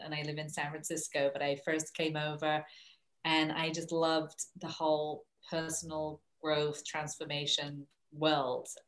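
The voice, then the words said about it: English accent. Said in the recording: “I'm originally from England, hence the accent”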